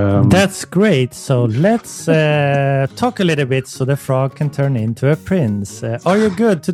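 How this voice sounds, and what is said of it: Usual voice. Nothing is said of it.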